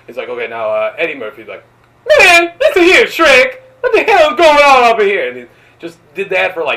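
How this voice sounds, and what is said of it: Usual voice. Nothing is said of it.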